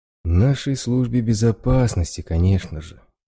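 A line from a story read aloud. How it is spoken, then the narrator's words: Sighing, said by a scholar. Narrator (Russian): вздохнул доктор наук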